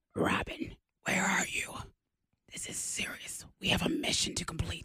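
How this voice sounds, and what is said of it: Whispered Batman character voice. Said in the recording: “Why are you whispering? ... That's Batman's whisper.”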